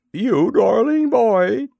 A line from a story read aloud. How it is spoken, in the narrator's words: she cried